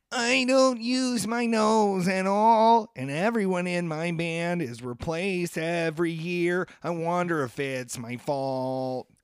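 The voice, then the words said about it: Imitates another person's voice. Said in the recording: “my Billy Corgan impression ... He has the worst voice in all of rock and roll of all time”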